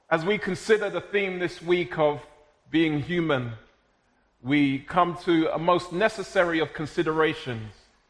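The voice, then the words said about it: South London accent. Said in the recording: “I was born and raised in South London, but of Jamaican heritage. So if it at times sounds like I'm speaking in tongues”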